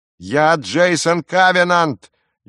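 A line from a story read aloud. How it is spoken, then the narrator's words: Louder shout. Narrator (Russian): еще громче закричал Джейсон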